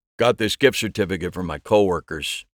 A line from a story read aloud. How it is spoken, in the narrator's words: said, his voice a flat monotone